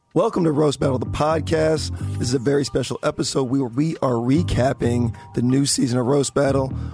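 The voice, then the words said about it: Hoarse, mostly lost voice. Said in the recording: “your voice is gone. ... You can tell by my voice”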